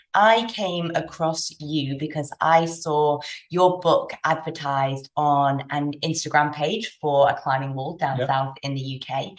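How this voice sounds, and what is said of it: British English accent. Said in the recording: “my good, solid British accent”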